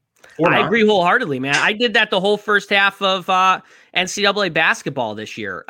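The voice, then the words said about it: Chicago accent. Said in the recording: “I'm a Chicago guy. You can probably hear from the accent, Italian”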